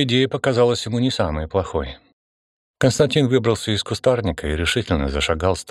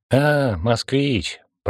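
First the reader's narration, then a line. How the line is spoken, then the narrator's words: Sympathetic drawl. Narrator (Russian): протянула с плохо скрываемым сочувствием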